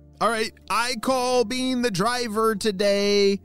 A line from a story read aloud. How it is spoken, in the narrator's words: shouted Neil